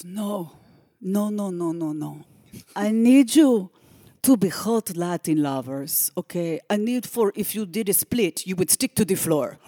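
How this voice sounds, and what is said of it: Poor put-on Cuban accent impression. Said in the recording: “I am about to do a terrible Cuban accent. ... the Jack Romano imitation ... I am piss poor at it.”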